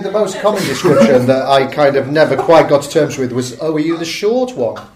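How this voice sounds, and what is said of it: Northern English accent. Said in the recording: “the northern one ... you have still got an amazing accent ... I'm from Salford”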